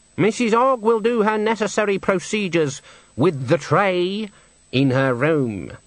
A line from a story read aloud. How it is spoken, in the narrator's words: said Granny haughtily